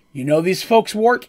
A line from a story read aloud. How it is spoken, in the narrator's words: smiled nervously